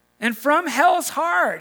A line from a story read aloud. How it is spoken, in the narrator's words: he cries out